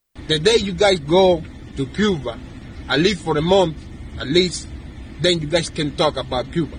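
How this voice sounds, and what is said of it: Cuban-accented English. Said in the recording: “He's from Cuba. Listen closely, because he's got an accent.”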